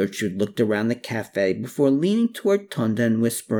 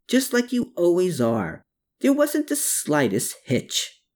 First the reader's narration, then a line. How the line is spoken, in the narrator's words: he exclaimed back